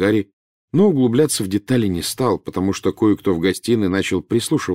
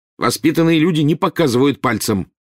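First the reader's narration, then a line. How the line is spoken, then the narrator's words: Barking at child. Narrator (Russian): рявкнул Рон на крошечного первокурсника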